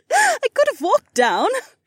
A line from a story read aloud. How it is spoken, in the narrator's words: she giggled